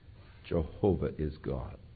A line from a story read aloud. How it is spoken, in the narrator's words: the Jewish mothers would begin to whisper in their ears